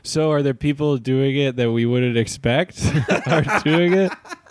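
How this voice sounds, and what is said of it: Impression of Clark Kent at press conference. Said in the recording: “this is Clark Kent. This is my impression of Clark Kent in a press conference.”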